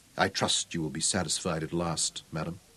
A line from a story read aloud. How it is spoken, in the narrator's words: his voice cold and distant as he told her quietly